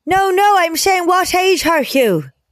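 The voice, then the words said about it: Put-on Irish accent. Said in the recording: “Then he said in an Irish accent”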